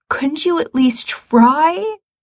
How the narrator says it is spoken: Gerard says desperately

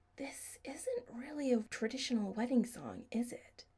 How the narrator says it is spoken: Adam whispered in Chris's ear

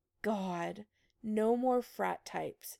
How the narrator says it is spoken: groaned

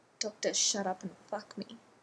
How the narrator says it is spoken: Ronan growled

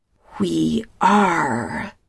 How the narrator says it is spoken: Telessa snaps

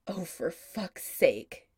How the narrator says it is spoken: Adam growls

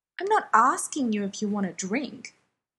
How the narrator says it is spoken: his dad snaps

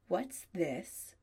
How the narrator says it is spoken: asks tightly

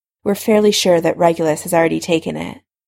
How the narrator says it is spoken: Alice Longbottom said with a resigned sigh

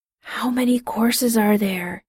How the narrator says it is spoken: Jim whispered

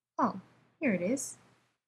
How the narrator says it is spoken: he said softly

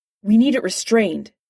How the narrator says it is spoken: Steve snapped

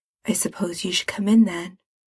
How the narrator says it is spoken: says quietly

